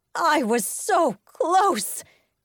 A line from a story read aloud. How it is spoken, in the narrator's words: she cried